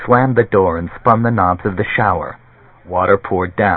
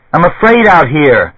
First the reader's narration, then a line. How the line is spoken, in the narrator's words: Charles Freck's voice came dimly, even though he was evidently yelling loud